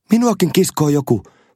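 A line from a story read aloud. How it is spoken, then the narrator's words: Shouting. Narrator (Finnish): huusi Lucy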